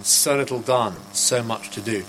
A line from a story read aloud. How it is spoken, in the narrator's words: He died mumbling